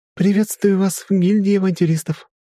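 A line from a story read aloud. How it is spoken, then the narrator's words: Cheerful chirping girl. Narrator (Russian): весело прощебетала улыбающаяся девушка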